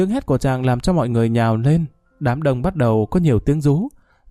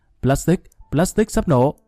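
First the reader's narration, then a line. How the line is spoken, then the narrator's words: Loud shout. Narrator (Vietnamese): Khanh hét lớn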